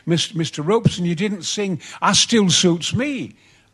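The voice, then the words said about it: Strong Yorkshire accent. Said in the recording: “with a great Yorkshire accent”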